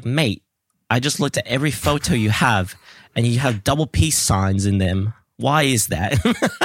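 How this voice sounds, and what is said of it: Put-on accent while quoting friends. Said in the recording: “flawless accent work.”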